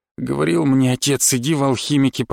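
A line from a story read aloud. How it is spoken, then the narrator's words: Grumbling. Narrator (Russian): пробурчал стражник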